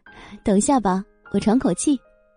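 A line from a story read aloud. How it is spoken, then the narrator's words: Faint smile. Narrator (Chinese): 叶朵朵淡淡笑道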